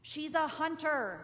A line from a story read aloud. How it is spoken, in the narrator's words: roared the lion